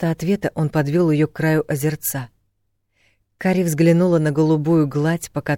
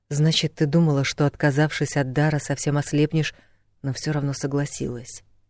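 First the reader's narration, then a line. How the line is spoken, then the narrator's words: Muffled, dull voice. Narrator (Russian): Его голос звучал глухо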